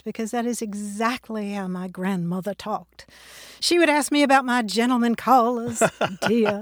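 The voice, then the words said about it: Authentic Southern accent. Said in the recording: “you come by the Southern accent honestly ... It's authentic”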